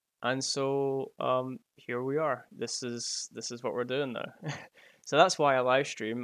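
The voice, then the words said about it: Pleasant regional accent. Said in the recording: “you've got a nice accent. It's nice to listen to”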